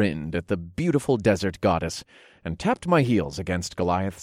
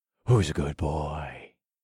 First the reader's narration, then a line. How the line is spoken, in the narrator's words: I murmured to him under my breath